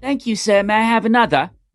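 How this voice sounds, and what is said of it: Put-on British accent. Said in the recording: “That wasn't a bad British accent, if I do say so myself.”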